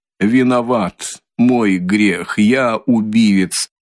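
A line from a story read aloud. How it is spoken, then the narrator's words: Sudden, breathless, loud. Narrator (Russian): вдруг произнес Николай, как будто несколько задыхаясь, но довольно громким голосом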